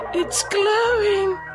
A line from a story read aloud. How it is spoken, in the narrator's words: gasped